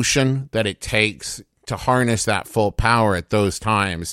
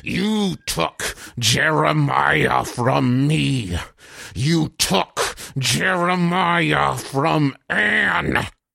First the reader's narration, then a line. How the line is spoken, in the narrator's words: Connors is gasping